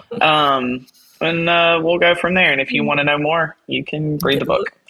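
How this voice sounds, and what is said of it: Southern US accent. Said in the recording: “my Louisiana, Tennessee, Texas accent”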